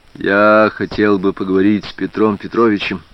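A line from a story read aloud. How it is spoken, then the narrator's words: Quiet. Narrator (Russian): тихо сказал Женька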